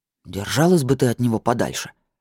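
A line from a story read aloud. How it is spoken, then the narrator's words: Grumbling mutter. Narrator (Russian): буркнул бармен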